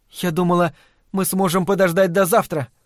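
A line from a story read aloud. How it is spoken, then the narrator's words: Timid. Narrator (Russian): робко начала она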